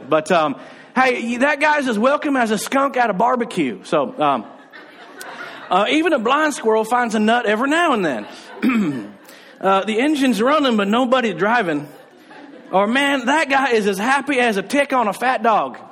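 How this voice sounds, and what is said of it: Put-on Alabama Southern accent. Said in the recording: “I'll go ahead and give you them in an accent that helps you feel like you and I are from Alabama ... redneck cliches”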